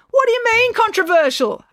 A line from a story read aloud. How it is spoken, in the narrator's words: April yelled to Loretta, but she could not make herself heard above the music and gabble of the crowd